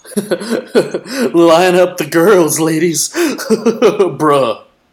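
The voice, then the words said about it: Frat boy voice impression. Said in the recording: “that was a great frat boy impression”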